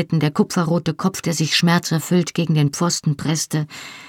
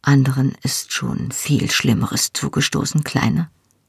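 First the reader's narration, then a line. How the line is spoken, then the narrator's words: Quiet. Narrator (German): sagte er leise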